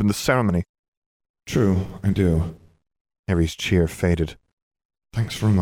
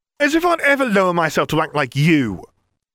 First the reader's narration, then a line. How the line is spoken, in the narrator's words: Ron yelled